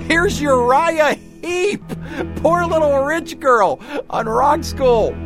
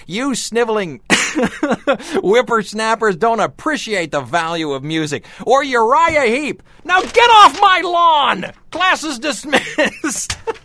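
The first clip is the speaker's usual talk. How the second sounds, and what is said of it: Imitated old man voice. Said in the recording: “I hurt my voice doing my old man imitation.”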